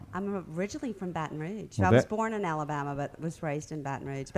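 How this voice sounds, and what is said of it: Charming Southern Belle accent. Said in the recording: “charming Southern Belle accent”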